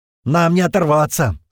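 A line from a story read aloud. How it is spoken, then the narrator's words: Shouting. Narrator (Russian): снова прокричал Пьер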